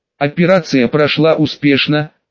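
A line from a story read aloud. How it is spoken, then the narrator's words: Plain. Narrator (Russian): сказала Фрина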